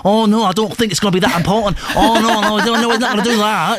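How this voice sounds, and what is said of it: Mock northern English accent. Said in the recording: “What's the accent? ... North.”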